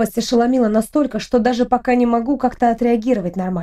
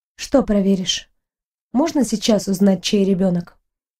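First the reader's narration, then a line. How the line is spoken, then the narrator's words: Detached and calm. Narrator (Russian): На удивление, говорю достаточно отрешенно и спокойно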